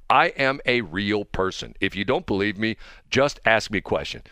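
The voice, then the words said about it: Robotic automated-system voice. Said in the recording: “it's got the voice. Hi, I'm not a robot, even though I sound like a robot.”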